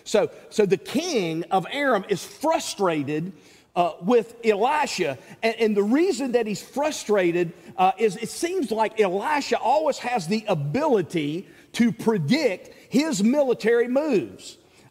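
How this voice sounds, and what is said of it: Southern American accent. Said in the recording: “my southern accent kind of makes it sound like I'm saying the same thing each time”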